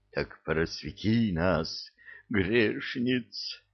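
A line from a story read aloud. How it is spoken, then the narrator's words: Passionate breathy chorus, women. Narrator (Russian): жарко выдохнул гарем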